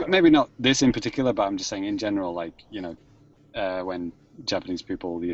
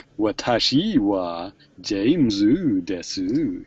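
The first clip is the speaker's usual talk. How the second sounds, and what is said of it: Japanese in silly American accent. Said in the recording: “speak Japanese, but with like a silly American accent”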